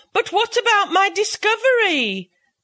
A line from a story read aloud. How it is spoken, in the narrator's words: cried Mr